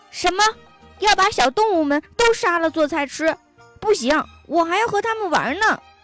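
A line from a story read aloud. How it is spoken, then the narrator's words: Angry yelling. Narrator (Chinese): 小老虎却生气了，他冲星星大厨师大嚷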